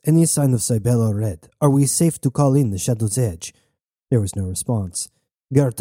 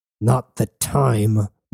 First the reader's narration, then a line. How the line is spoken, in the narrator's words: growled Switch